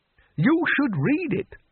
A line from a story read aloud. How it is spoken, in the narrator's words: said the Bursar, still happily living in the Valley of the Dried Frogs